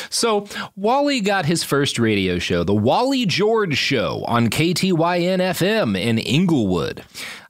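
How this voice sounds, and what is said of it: Put-on radio announcer voice. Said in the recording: “I was trying to do my radio voice for that one.”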